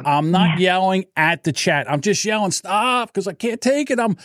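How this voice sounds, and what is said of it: High-pitched agitated yelling. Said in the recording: “I didn't think your voice could get much higher ... You can tell when it really bugs him. He takes it up much.”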